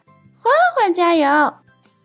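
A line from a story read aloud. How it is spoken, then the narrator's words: Shouting. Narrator (Chinese): 朵朵大喊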